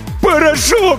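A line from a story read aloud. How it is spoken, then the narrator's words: Desperate howl. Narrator (Russian): взвыл он отчаянно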